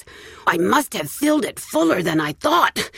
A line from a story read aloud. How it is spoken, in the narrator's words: she grunted